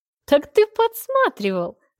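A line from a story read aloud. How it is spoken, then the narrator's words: Loud laughter. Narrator (Russian): захохотала я, сама не зная, что меня рассмешило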